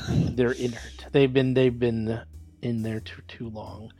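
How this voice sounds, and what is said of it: Belter accent from The Expanse. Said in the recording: “when you said inert, the way you said it, I thought you were doing Belter language from The Expanse”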